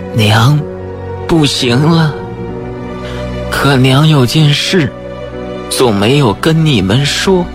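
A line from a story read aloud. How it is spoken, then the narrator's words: Weak, faint voice. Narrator (Chinese): 赵大娘声音微弱地说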